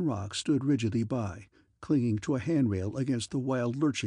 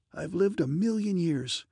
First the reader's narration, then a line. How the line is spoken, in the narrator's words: I gasped